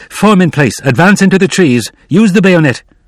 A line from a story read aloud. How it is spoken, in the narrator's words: He began to shout